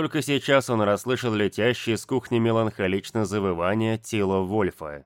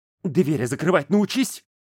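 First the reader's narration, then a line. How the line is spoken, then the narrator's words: Barked, hiding a tremor. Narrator (Russian): Скрывая дрожь в голосе, рявкнул в ответ Ярик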